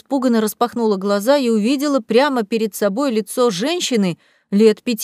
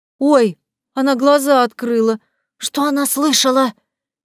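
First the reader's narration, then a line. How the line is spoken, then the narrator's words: Frightened voice from behind. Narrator (Russian): Испуганно прозвучал еще один голос где-то за моей головой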